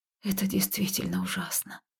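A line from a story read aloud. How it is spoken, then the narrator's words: Said quietly. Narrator (Russian): тихо произнесла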